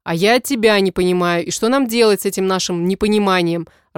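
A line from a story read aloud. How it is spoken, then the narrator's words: Irritated question. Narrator (Russian): раздраженно спрашивает он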